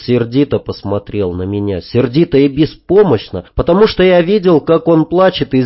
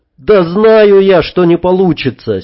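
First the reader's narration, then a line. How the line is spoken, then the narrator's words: Angry, curt. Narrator (Russian): сердито отрезал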